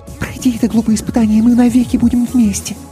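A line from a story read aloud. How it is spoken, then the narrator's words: Quick whisper. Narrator (Russian): быстро шепнула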